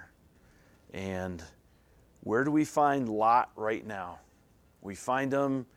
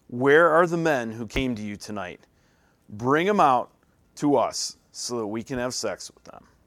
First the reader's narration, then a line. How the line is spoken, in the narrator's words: They shouted to Lot